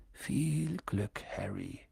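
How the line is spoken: Murmured. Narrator (German): murmelte er

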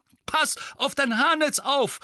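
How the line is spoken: Called out. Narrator (German): rief Mandanges

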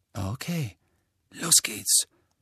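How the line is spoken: Whispered. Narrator (German): flüsterte Fred

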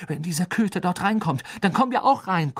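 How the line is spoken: Panting. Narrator (German): keuchte Harry

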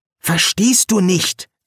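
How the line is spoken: Hissing. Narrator (German): zischte Eric

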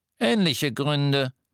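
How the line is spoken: Higher-pitched goblin voice. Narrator (German): sagte der Kobold mit der höheren Stimme

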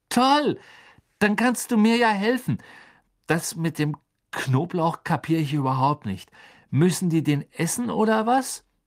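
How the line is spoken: Voice fading, soft panting. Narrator (German): Unter leisem Keuchen erstarb Nevilles Stimme

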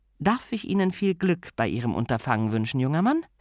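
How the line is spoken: Plain. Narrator (German): sagte sie dann

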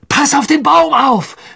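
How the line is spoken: Shouted. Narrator (German): schrie Harry

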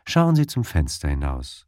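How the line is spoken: Calm. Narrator (German): sagte ich ruhig zu ihm

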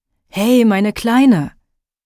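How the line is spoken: Uncle calling from below. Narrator (German): rief mein Onkel von unten

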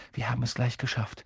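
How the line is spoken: Sudden murmur. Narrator (German): murmelt er plötzlich

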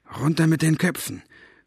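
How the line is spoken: Gasp. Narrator (German): keuchte Staubfinger

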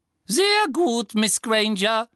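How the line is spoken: Squeaky thin voice. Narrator (German): ertönte Professor Flitwicks quiekende, dünne Stimme

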